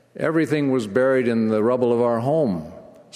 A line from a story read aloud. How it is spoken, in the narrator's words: Sister Conde replied